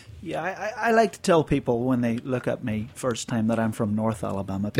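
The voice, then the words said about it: Northern Irish accent. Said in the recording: “your accent is not one I expect to hear when I'm in Alabama ... I grew up in Northern Ireland”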